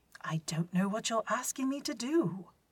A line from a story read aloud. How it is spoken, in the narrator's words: Other Mycroft exclaims